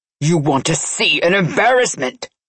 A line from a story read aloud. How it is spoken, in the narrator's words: Nikolai roared